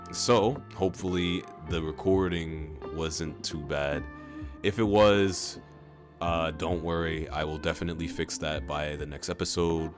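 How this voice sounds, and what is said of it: Tired-sounding voice. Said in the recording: “My voice is a little bit tired”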